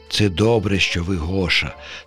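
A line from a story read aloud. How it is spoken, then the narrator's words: Plain. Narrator (Ukrainian): сказав він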